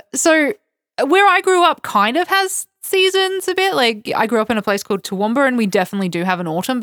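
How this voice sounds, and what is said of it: Australian accent. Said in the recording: “I'm from Australia. You might hear it in my accent.”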